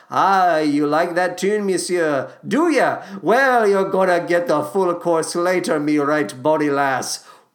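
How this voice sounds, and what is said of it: Muddled, unclear put-on accent. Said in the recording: “What kind of accent am I even trying to do? ... I'm a disaster. Never cast me in anything that requires any sort of accent. It's just going to come off as vaguely offensive.”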